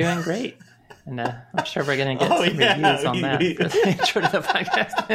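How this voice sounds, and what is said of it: Usual voice. Nothing is said of it.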